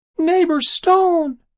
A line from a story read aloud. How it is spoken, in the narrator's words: it squeaked